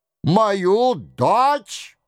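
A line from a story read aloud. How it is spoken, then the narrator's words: Frantic howl. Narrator (Russian): взвыл Роншероль, потеряв голову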